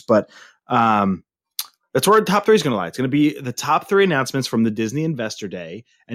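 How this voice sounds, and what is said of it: Slightly hoarse voice. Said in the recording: “my voice is just a little hoarse”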